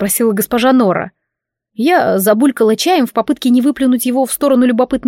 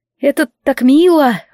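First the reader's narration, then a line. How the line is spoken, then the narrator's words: Forced smiling tone. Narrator (Russian): выдавила улыбку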